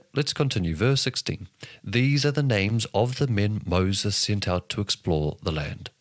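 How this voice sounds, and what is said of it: New Zealand accent. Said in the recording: “In my New Zealand accent,”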